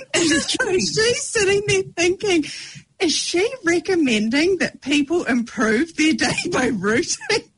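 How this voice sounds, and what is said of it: New Zealand accent. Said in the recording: “with your accent ... It might just be my Kiwi accent”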